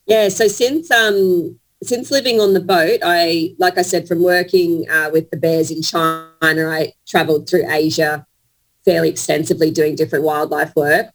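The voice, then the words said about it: Australian accent. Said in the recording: “you came out of Australia, as I can tell from your wonderful accent.”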